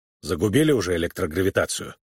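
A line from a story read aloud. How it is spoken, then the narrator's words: Grumbled. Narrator (Russian): он проворчал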